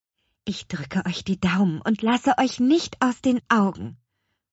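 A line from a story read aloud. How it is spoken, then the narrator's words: Whispered. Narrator (German): flüsterte Petronella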